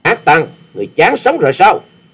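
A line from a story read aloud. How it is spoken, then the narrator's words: Furious loud shout. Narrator (Vietnamese): chàng cũng nộ khí xung thiên quát lớn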